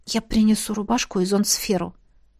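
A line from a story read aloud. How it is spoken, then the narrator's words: Whispered. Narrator (Russian): шепнула Селеста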